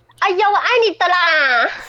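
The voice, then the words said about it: Mock Taiwanese Indigenous accent. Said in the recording (Chinese): “综艺节目最常模仿原住民的口音”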